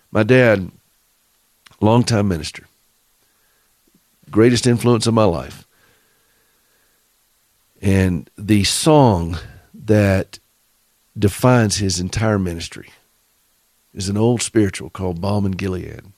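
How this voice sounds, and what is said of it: Southern US accent. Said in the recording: “Forgive my southern accent. For those of you who speak southern”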